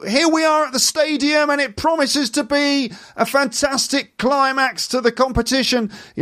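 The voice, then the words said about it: High-pitched BBC sports reporter voice. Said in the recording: “that's the way that like a BBC sports reporter would, news reporter would speak ... sports reporters are even higher ... it's always much higher up ... somehow very high”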